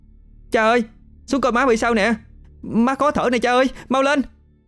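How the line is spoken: Very loud, urgent shout. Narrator (Vietnamese): Nghi cố hét thật to

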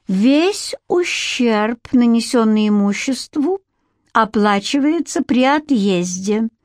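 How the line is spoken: Joking sing-song drawl. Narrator (Russian): протянула нараспев Петти и издала звенящий смешок, чтобы показать, что она всего лишь шутит

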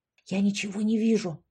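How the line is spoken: Whisper. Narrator (Russian): прошептала Яшка

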